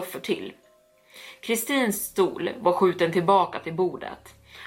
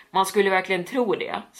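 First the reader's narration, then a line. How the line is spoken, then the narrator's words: Plain. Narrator (Swedish): sa han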